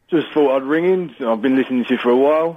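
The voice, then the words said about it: Strong Essex accent. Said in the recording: “You can't get more thick than Essex, mate... the Essex accent is properly thick... I'm proud of my accent”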